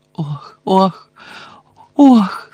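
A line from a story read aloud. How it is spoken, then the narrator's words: Moaning, bursting into tears. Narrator (Ukrainian): стогнала, вибухла цілим морем сліз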